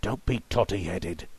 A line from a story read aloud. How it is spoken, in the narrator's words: Burris hissed